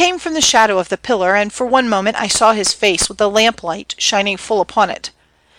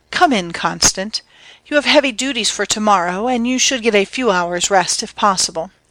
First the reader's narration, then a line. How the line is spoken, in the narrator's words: say in the soft and appealing tones of love